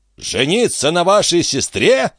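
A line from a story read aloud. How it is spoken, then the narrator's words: Shouted. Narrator (Russian): закричал Пьерстер Ван Мало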